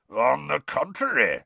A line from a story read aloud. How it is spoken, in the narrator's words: growled Moody